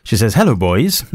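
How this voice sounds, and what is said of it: Welsh-sounding accent. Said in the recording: “sounded very Welsh.”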